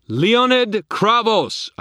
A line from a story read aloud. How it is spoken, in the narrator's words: I thundered